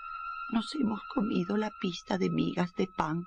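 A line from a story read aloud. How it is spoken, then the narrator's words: Sad singing. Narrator (Spanish): cantaban tristemente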